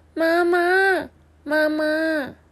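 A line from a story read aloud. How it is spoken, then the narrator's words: Soft calling. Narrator (Chinese): 他轻轻的喊说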